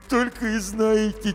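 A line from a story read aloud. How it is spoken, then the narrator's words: Heavy sigh, hamster. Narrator (Russian): тяжело вздохнул хомяк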